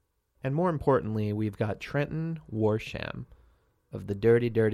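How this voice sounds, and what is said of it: Usual voice. Nothing is said of it.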